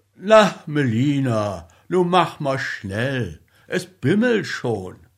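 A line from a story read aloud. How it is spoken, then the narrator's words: Calling out. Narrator (German): Einer der Männer rief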